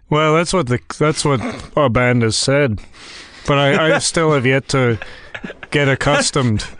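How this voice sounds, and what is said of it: Exaggerated put-on accent. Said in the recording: “Please excuse my ridiculous accent”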